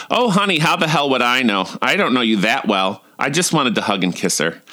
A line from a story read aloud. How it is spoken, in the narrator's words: She snapped back